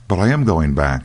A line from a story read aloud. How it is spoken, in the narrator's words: answered Dan, in a rather hurt voice